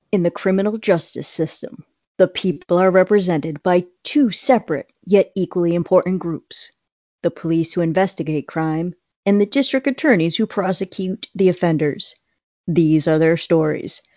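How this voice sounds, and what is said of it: Dramatic TV narrator voice. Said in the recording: “I'm going to say this in my best voice.”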